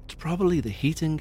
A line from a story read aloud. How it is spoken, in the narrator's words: whispered Joe